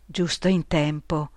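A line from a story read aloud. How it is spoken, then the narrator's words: Whispered. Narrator (Italian): bisbiglia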